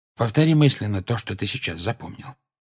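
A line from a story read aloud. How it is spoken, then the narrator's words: Quiet. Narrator (Russian): тихо сказал ему Люпин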